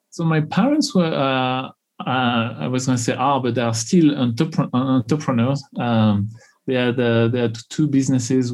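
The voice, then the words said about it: French accent in English. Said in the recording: “So in French, I don't have an accent, but of course in English, I do.”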